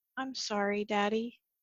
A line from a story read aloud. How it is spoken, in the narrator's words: The boy … quietly said